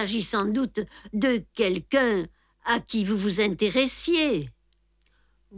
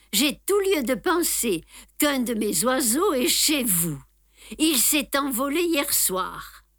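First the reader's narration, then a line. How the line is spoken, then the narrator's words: Jovial. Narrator (French): dit-il d'un ton jovial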